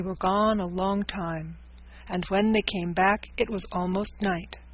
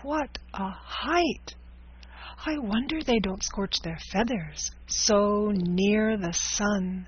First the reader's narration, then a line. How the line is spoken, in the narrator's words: said Gub-Gub in a hushed voice